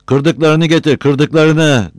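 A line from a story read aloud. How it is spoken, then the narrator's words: Shouting. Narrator (Turkish): diye bağırıyordu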